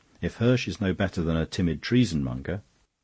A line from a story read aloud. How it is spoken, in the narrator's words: said rather harshly